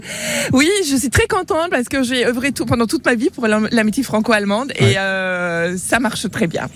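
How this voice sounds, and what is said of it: Slight German accent in French. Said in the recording (French): “On a cru percevoir un léger accent. Il vient d'où ce très léger accent? ... Il vient du Nord, il vient d'Allemagne.”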